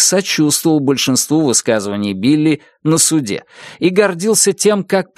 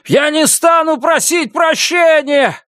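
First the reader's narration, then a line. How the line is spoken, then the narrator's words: Shouting. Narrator (Russian): кричал он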